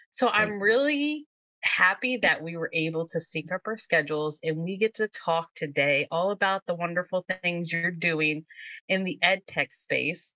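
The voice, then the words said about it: Slight Southern American accent. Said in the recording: “I have a little bit of a slight Southern accent, I'm told”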